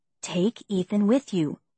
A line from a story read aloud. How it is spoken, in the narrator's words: she said in a whisper